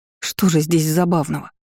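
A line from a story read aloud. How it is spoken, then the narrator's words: Displeased grumble with sniffing. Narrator (Russian): буркнула я, недовольно засопев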